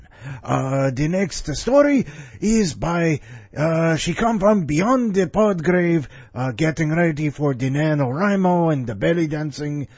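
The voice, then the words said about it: Creepy put-on accent. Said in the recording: “I need to use this creepy accent, more often”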